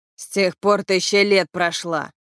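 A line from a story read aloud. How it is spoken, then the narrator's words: Through gritted teeth. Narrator (Russian): процедил Витька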